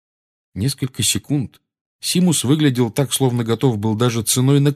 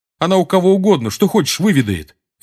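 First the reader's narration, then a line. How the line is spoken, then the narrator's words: Sharp. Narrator (Russian): резко сказал Симус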